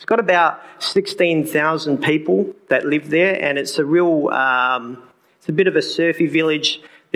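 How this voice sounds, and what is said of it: Australian accent. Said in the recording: “as my accent has already given away, I'm from Australia”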